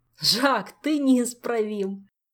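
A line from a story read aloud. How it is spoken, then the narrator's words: Laughing. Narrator (Russian): засмеялся король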